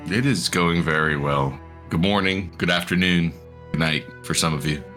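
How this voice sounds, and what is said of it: Radio-style broadcaster voice. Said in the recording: “the radio voice on the show”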